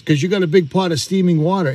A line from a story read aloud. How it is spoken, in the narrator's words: he laughs and he says